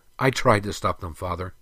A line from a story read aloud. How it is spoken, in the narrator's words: Prince Elengal said